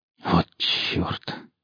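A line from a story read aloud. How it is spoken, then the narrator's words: Breathless exclamation. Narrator (Russian): выдохнул Гриф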